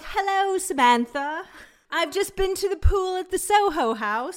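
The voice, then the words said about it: Deliberately bad put-on accent. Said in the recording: “Sorry, that's like the worst accent ever. But that's how it sounds like to me.”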